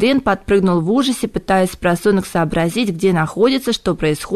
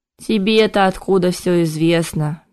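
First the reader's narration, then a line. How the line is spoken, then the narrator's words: Hopeless sigh. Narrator (Russian): безнадежно вздохнул Кайден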